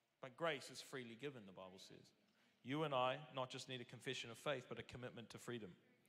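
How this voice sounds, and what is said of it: Speaks with a noticeable accent. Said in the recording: “Keeping up with my accent?”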